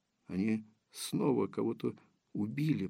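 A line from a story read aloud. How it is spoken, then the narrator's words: Whispered. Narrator (Russian): прошептала Дарья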